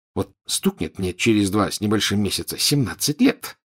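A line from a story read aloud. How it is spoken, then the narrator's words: Grumpy mutter. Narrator (Russian): сварливо пробормотал Рон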